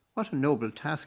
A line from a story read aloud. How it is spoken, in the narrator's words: exclaimed Donnacha